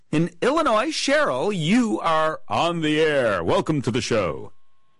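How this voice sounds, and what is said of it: Polished radio announcer voice. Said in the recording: “You like my radio voice? ... It's very good, very good.”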